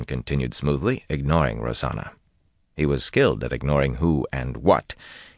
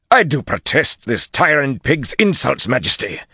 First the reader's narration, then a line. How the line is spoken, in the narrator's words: Gregorin growled right atop him